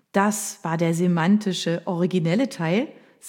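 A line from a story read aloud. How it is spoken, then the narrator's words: Plain. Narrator (German): sagte Rita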